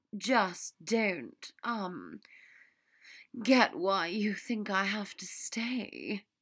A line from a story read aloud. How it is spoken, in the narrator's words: Draco breathed